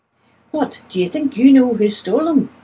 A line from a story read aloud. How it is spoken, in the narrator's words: asked eagerly